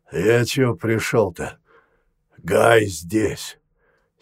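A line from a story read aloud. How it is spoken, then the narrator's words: Hoarse voice. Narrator (Russian): сипло произнес он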